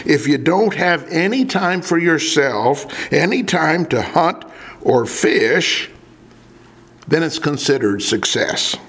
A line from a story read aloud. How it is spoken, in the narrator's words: he groaned